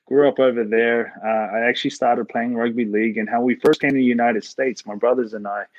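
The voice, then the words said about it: New Zealand accent. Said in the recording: “my funny accent is from New Zealand”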